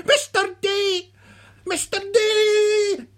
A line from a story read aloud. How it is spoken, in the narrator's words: So he shouted again